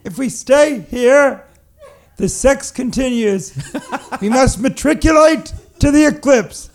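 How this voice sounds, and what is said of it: Imitates another person's voice. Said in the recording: “What kind of voice was that? ... This is my impression of you and how you should sound”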